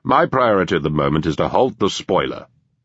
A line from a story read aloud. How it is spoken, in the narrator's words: Walshaw said